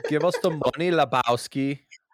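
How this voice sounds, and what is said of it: Put-on German accent, villain voice. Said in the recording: “the bad guys from The Big Lebowski ... German accent, I think ... worst Arnold Schwarzenegger impression”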